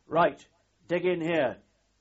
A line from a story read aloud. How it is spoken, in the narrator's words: shouting